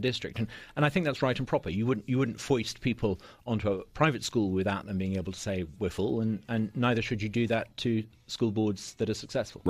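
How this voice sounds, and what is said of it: Non-local, non-Southern accent. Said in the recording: “I don't think that's a Corinth accent that you have. ... It's a Flowood accent.”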